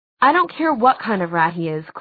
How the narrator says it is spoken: Clary said crossly

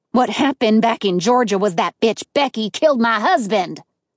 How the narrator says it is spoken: Atkins barked furiously

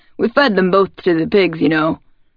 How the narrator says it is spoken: the doctor calls sadly

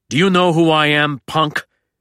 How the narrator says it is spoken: snarls the thick-set Capone

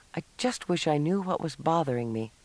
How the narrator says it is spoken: Cassie murmured

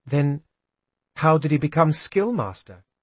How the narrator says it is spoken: I asked quietly

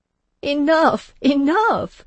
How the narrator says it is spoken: cried one of the ladies of the party, traces of hilarity still in her voice

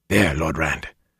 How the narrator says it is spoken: Huron whispered

